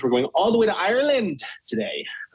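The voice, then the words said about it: Brief put-on Irish accent. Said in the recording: “that's about the extent of my Irish accent.”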